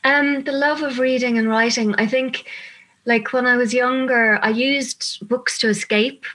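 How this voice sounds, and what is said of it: Irish Dublin accent. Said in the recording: “I'm loving your accent ... I'm from Dublin”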